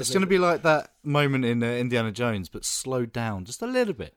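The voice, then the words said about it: Rough, strained throat voice. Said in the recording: “You might be able to hear my throat is messed up.”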